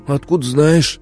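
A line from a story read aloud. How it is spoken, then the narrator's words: Hoarse. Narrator (Russian): прохрипел кто-то из ушкуйников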